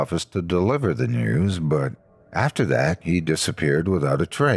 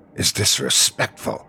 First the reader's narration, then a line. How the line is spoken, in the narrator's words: they hissed